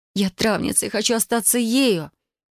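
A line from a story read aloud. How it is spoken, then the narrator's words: Gasping, strained. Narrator (Russian): Я судорожно вздохнула и через силу выдавила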